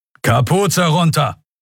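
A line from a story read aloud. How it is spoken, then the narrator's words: Thundering officer's shout. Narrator (German): donnerte der Leutnant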